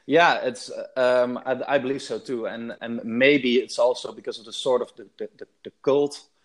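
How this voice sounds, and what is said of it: Dutch accent in English. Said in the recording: “you're not from Oakland, I take it, by the accent... I'm 100% Dutch”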